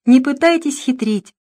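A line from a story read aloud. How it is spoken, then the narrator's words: Laughing. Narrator (Russian): засмеялась Лона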